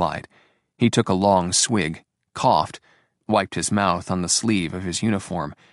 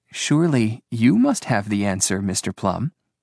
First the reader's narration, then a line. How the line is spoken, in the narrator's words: Angela repeated sweetly